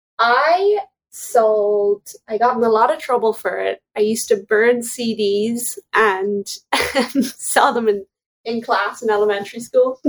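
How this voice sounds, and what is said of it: Irish accent. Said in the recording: “in Ireland from your accent”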